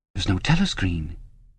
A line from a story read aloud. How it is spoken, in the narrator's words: he could not help murmuring